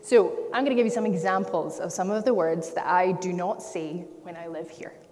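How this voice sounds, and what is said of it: British accent. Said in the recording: “This is a British accent.”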